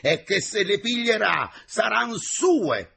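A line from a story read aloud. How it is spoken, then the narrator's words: Exasperated engineer shouting. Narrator (Italian): gridò l'ingegnere esasperato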